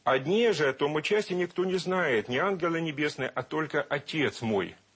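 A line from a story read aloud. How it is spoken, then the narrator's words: Plain. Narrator (Russian): сказал Иисус Христос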